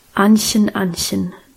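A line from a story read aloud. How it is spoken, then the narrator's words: Serious voice. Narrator (German): sagte er mit ernster Stimme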